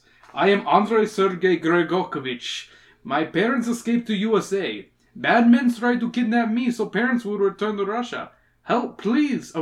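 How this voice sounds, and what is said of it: Put-on Russian accent. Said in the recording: “giving him a Russian voice ... I'm going to keep the Russian accent”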